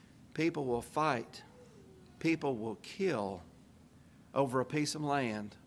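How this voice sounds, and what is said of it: Usual voice. Nothing is said of it.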